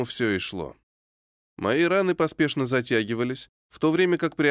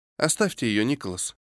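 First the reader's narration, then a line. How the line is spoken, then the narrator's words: Familiar voice from behind. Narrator (Russian): Раздался знакомый голос за моей спиной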